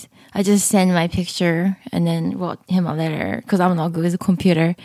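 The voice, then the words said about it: Funny-sounding accent. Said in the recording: “Your accent is funny.”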